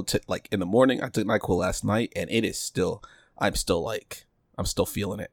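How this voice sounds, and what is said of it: Groggy, sick-sounding voice. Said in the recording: “my voice is a lot worse than yours ... I'm super groggy right now”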